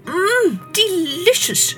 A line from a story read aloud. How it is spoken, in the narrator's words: she cried